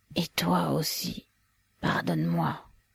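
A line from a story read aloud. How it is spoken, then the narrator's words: Whispered reply. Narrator (French): répliqua-t-il également en chuchotant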